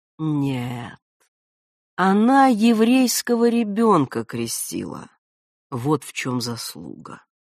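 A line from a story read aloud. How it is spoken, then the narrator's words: Thoughtful. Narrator (Russian): задумчиво продолжал он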